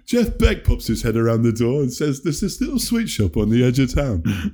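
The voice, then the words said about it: Impression of Del Preston. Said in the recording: “I sounded like Del Preston in Wayne's World 2... That's a very good impression.”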